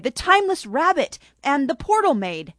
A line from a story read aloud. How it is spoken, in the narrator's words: Lily White cried